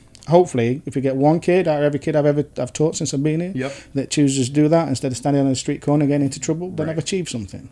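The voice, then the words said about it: English accent. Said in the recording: “your English accent ... I sound funny”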